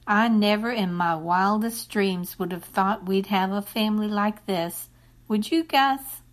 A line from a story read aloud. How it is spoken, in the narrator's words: Bertha let out a big, contented sigh and said